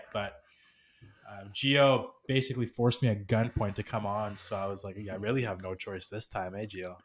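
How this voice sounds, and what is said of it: Sick-sounding voice. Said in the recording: “I came down with a little bit of a sickness, and I don't know if you guys can tell by my voice, but I'm just about to recover here, but still not 100% yet.”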